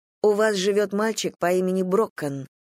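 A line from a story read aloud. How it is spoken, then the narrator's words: Plain. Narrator (Russian): сказала я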